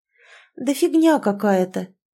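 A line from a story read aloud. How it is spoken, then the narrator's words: Hesitant, faltering. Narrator (Russian): неуверенно замялась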